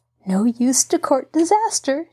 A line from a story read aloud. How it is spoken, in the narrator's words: chuckled